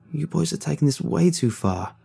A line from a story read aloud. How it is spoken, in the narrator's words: Chester said softly